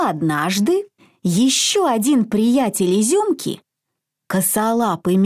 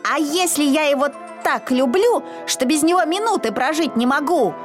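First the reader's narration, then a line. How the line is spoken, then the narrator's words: Shouting. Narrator (Russian): кричал Изюмка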